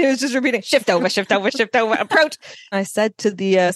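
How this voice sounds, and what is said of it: Usual voice. Nothing is said of it.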